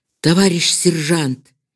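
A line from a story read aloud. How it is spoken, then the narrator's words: Quiet. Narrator (Russian): тихо сказал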